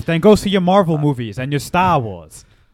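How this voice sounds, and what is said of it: Attempted Boston accent. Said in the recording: “Was that a Boston accent? ... An attempt at a”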